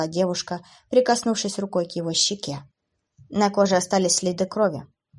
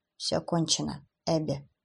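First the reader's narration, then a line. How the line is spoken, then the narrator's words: Quiet. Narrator (Russian): тихо сказал Кевин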